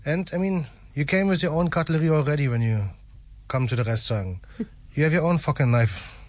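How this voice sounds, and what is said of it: German accent. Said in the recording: “Sometimes I'm just speaking too far my German accent”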